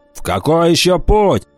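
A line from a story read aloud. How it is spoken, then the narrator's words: Grumbling. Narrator (Russian): проворчал Уртона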